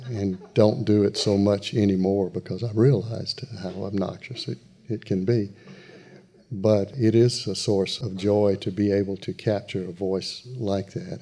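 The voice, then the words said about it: Southern American accent. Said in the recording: “the Southern accent is my accent”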